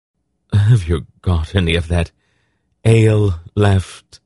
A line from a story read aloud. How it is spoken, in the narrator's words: he asked in a hoarse voice